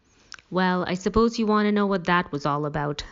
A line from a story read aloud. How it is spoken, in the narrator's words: I said